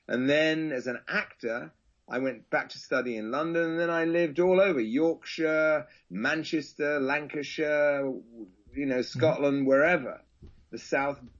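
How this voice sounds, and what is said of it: Standard English accent, sounding posh. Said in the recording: “my accent is what used to be considered not really an accent. It just was called a standard English ... a lot of people in England would think I'm posh”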